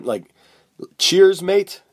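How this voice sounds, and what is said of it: Put-on British accent. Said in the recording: “if you want a British accent? ... You nailed it. So that was 10 out of 10.”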